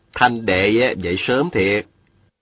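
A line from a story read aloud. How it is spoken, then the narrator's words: Smiling. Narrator (Vietnamese): Viên Thừa Chí mỉm cười nói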